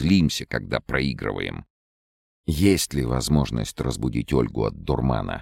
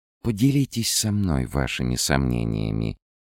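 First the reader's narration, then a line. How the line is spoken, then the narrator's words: Purring voice. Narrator (Russian): промурлыкала Лаура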